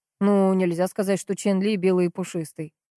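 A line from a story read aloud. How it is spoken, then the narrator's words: Wry snort. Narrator (Russian): хмыкнул Кирьянов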